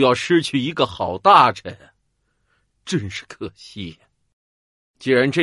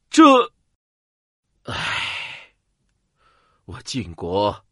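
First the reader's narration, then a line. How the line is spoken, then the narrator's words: Deep sigh. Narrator (Chinese): 晋平公深深的叹息道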